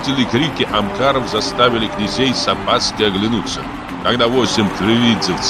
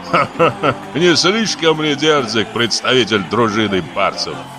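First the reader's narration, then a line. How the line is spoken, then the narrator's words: Laughing. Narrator (Russian): Тулевидзе рассмеялся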